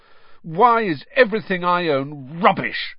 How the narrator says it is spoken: said Ron furiously

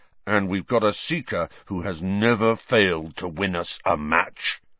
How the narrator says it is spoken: rumbled, with a kind of furious pride

